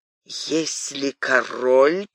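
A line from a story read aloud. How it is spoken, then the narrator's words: Mutter. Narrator (Russian): пробормотал он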